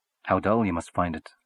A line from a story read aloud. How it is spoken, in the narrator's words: said Little Chandler